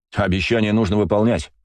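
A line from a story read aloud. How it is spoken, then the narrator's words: Snort. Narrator (Russian): фыркнул я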